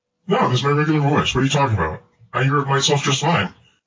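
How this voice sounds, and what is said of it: Very deep voice. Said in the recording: “Kind of sounds like Darth Vader right now... you sound really deep... It's like James Earl Jones deep”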